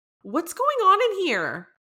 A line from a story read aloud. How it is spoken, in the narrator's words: she exclaimed